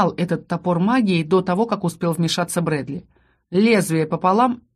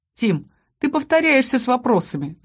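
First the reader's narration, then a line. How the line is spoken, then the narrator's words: Laughing. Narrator (Russian): засмеялся Ас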